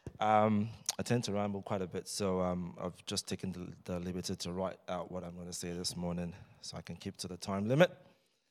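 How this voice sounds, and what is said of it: Hoarse, strained voice. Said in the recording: “I've just lost my voice a little bit... screaming my lungs out”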